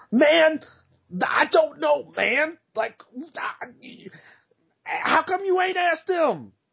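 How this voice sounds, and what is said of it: Imitates another person's voice. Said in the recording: “my Kyle Smith impression”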